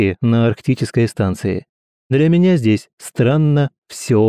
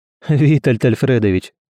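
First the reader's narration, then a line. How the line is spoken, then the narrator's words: Laughing. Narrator (Russian): рассмеялся Герман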